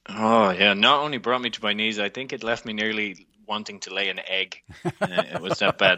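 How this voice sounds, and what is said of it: Irish accent. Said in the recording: “that book does come with an Irish accent.”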